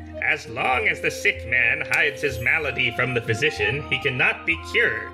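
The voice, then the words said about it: Put-on old woman character voice. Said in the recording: “I'm trying to do a voice.”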